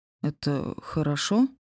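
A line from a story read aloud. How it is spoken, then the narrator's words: Uncertain. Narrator (Russian): неуверенно уточнил Серж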